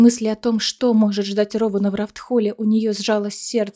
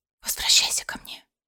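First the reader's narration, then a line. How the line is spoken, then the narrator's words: Whisper. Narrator (Russian): прошептала Айлина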